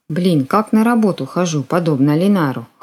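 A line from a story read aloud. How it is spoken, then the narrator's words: Snorting to herself. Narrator (Russian): хмыкнула про себя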